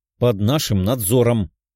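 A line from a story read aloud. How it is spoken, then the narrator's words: Menacing, tearful declaration. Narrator (Russian): грозно заявила Лиза, вытерев влажные глаза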